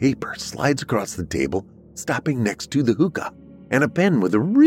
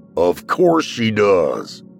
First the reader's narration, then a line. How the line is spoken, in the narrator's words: Dad … barks